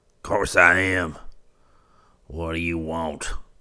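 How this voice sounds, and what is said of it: Irritated, nettled old man's voice. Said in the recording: “Retorted the old man in a nettled voice.”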